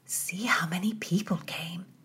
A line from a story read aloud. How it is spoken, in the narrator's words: Mary whispered